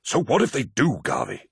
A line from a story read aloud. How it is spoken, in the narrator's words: hissed Torgadon